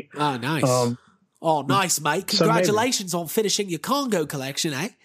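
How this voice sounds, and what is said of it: Put-on Australian or New Zealand accent. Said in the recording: “What's that voice you're doing? ... Australian, I think. ... New Zealand.”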